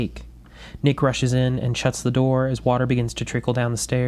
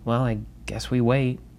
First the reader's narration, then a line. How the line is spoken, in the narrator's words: Barrett mutters